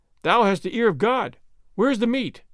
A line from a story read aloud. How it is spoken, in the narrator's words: the people cried